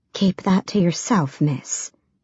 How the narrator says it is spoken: she whispered

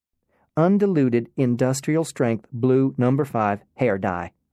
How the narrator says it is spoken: Alaska said

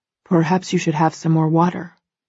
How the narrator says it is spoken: Christian murmurs, a warning clear in his voice

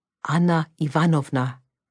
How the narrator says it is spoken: Konstantin said

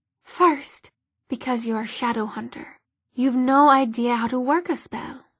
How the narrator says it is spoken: she said calmly

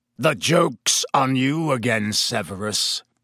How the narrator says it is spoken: Black snarled

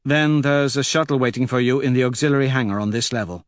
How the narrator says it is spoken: Mustang says evenly

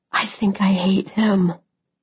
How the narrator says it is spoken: I whispered

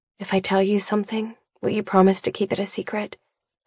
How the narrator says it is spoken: I murmur

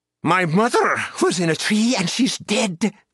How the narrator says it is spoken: Gwynplaine snapped

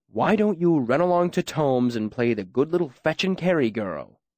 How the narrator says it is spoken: He said coldly

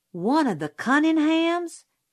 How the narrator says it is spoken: Jim yelped

